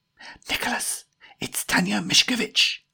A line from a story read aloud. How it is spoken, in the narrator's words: hissed Jemima